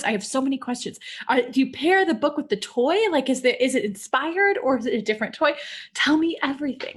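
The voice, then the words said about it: Excited, eager speech. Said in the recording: “hear the excitement in my voice.”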